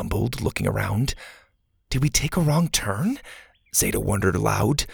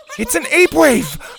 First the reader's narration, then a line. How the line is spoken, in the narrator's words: Bo shouted